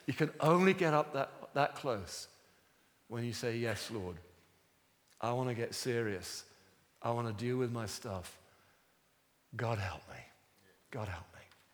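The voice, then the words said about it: Strained, failing voice. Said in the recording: “My voice is going.”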